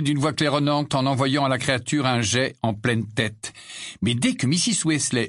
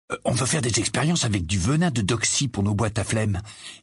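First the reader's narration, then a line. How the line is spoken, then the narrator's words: Low voice. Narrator (French): expliqua George à voix basse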